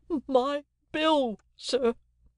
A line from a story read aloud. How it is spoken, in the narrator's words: the crying woman pleaded